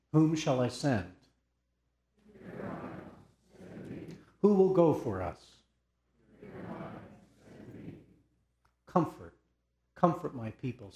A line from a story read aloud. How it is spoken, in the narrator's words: says your God